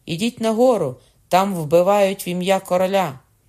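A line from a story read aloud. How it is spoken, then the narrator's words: Shouted. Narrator (Ukrainian): крикнувши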